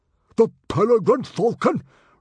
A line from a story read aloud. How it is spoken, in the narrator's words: roared Stoic the Vast